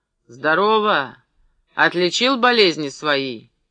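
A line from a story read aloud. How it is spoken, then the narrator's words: Shouted close by. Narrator (Russian): Юргин крикнул над ухом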